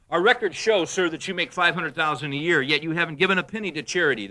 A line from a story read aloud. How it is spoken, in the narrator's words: the director said